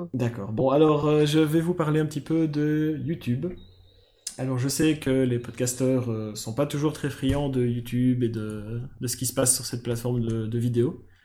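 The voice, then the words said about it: Belgian French accent. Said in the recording (French): “je suis belge... Ça s'entend, tant que ça?... Bah oui... Il a accent quand même.”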